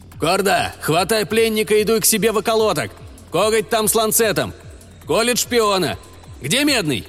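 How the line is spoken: Shout. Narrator (Russian): крикнул Каракурт

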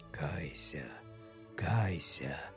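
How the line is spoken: Sad monk answering. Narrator (Russian): Печально ответил монах

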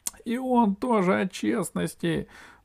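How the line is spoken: Sighing. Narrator (Russian): вздохнул Пашка

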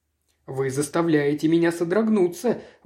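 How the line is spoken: Exclamation. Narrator (Russian): воскликнул сэр Генри

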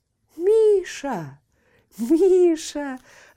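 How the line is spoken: Joyful call. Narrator (Russian): радостно позвал он

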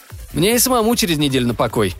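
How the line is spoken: Plain. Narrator (Russian): сказал шеф

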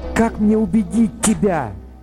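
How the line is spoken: Exclaiming transmitter. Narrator (Russian): воскликнул передатчик

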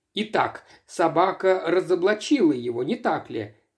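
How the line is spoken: Exclaiming. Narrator (Russian): воскликнул он

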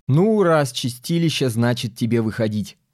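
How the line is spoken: Laughing. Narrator (Russian): засмеялся мэр

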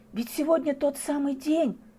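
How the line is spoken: Whisper. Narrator (Russian): прошептала она

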